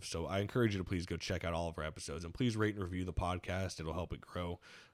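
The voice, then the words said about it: Hoarse voice. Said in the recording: “my voice is running hoarse”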